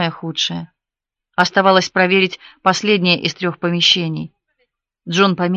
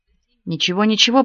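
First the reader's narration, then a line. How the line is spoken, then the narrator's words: Mutter. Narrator (Russian): пробормотал Джон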